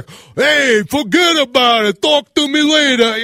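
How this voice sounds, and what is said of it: Exaggerated fake New York accent. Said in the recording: “your accent is terrible. People from New York don't sound like that.”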